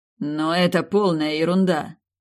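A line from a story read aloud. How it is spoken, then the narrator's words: King snorting. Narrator (Russian): фыркнул король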